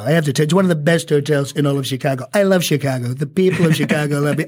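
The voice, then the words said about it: Donald Trump impression, Queens accent. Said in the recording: “where do you class the Trump locution or accent? I mean, is this a Queens accent modified or what is it?”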